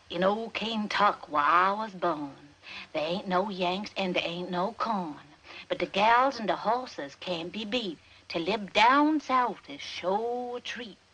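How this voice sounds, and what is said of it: Atrocious put-on Southern accent. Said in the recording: “has this atrocious Southern accent that she puts on ... How come you talk like that?”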